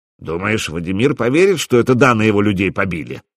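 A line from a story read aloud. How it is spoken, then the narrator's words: Mutter. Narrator (Russian): пробурчал Гостомысл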